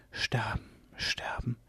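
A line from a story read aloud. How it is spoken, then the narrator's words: Whisper. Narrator (German): flüsterte Myga van Bergen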